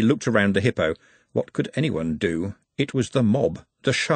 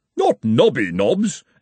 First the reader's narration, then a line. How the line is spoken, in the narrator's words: exclaimed the former dean